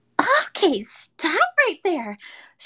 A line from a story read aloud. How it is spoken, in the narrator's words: Shigure cried